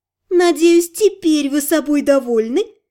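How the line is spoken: Laughing. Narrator (Russian): засмеялась красавица

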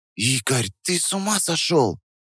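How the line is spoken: Whisper. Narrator (Russian): Прошептала она

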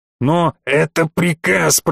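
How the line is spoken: Growled into radio. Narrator (Russian): прорычал я в рацию

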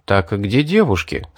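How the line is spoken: Plain. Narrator (Russian): спросил я

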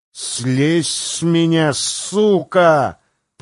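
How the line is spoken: Hissed. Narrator (Russian): прошипел он

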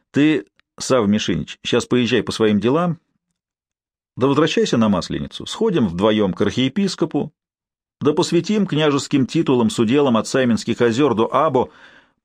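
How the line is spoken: Calm, matter-of-fact. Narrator (Russian): по-будничному спокойно сказал Норман

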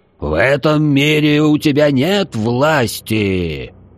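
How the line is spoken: Loud reply. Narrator (Russian): Так же громко ответил паладин

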